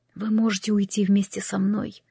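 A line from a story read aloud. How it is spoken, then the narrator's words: Whisper. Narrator (Russian): шепотом произнес Кристофер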